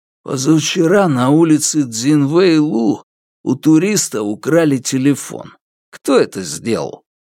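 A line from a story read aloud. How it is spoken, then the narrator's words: Grumbled. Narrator (Russian): Ван Тао буркнула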